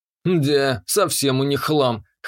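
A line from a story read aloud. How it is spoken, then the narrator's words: Wry snort. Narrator (Russian): хмыкнул я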